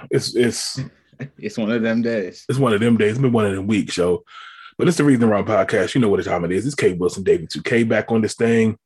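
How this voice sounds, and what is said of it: Tired, deep, hoarse voice. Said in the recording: “I can even hear it in my voice ... Tired, losing my voice. I actually sound kind of deep ... About to get my Barry White on.”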